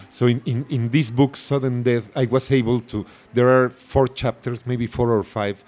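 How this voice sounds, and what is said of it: Very thick Spanish accent. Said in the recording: “I have a very thick accent ... I have a very thick accent”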